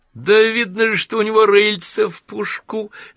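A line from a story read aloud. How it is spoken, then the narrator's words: Laughing exclamation. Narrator (Russian): воскликнула миссис Клэр, смеясь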